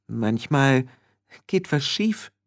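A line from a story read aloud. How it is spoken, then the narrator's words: Very thoughtful voice. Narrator (German): sagte Petunia mit sehr nachdenklicher Stimme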